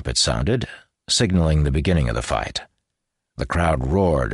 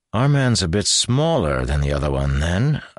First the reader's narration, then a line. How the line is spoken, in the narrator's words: observed Davian dryly